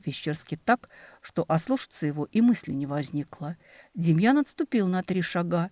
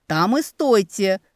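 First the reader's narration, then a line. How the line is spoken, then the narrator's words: Shout. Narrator (Russian): крикнул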